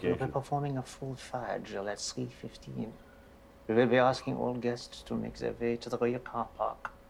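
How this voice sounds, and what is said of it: Hogan's Heroes-style accent. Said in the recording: “In the accent, it's like Hogan's Heroes.”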